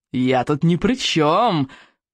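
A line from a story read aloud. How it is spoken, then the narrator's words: Growled. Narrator (Russian): прорычал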